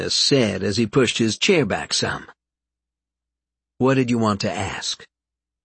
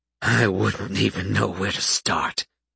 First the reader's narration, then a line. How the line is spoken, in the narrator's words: Seamus said, his voice rough as he choked back the anger and sadness that threatened to overwhelm him